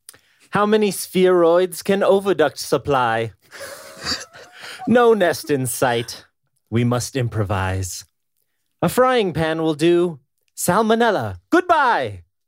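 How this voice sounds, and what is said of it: Put-on accent, spell-casting recitation. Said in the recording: “I wasn't comfortable with the accent. ... I was trying to read it as if I was casting a spell, sort of.”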